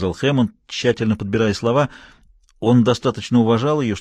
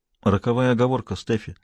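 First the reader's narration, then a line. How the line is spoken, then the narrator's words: Quiet remark. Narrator (Russian): заметил он негромко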